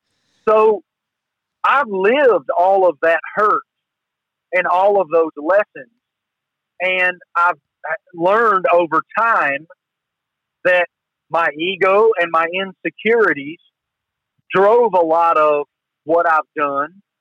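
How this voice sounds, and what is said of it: Southern American accent. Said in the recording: “They don't believe my accent is real ... a Southern accent”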